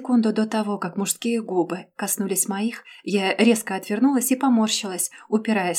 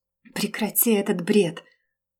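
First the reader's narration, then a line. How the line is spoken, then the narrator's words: Strangled mutter. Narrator (Russian): сдавленно пробормотала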